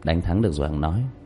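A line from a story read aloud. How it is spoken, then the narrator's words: Smiling. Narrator (Vietnamese): Diệp Thiếu Dương mỉm cười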